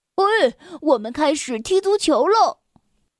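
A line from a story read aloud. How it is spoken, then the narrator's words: Loud shout. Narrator (Chinese): 他大声的叫道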